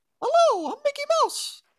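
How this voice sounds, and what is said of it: Mickey Mouse cartoon voice. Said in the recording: “doing the Mickey voice ... I can do the Mickey Mouse voice”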